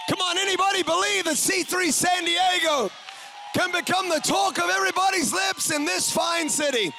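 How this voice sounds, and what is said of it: New Zealand accent. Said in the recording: “everybody immediately knows that I'm not from here. They can tell by my accent. ... we're from New Zealand.”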